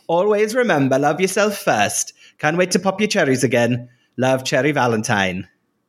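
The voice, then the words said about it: Put-on generic northern English accent. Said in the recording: “I'll try and do it in Tace's accent ... my Welsh accent ... it slides into my extremely generic northern accent”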